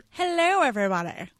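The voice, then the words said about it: Bad Grinch character voice. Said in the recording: “is that your Grinch impression? ... It's really bad. ... it's horrible.”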